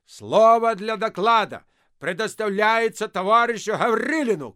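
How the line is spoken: Shout. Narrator (Russian): крикнул Гаврилин

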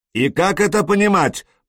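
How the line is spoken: Menacing shout. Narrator (Russian): прокричал он грозно

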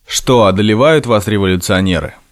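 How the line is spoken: Mocking exclamation. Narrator (Russian): Саша насмешливо восклицал, издеваясь

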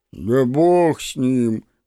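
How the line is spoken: Deep gloomy voice. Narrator (Russian): пробасил уныло Гребешков

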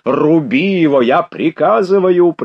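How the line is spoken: Pale, shouted order. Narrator (Russian): прокричал Ростопчин, вдруг побледнев так же, как Верещагин

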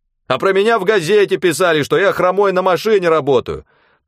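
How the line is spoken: Shouting. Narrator (Russian): Тоже закричал Веня

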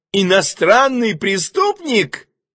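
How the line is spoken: Gleeful shout. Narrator (Russian): закричал он, причем глазки его радостно заиграли

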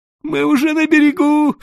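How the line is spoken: Moaning while struggling. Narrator (Russian): стонал он, стараясь высвободиться

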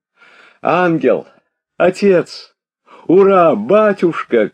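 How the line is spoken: Crowd shouting. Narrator (Russian): кричали народ и Петя

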